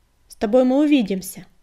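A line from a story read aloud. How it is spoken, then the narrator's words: Bark. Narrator (Russian): рявкнула песчаная буря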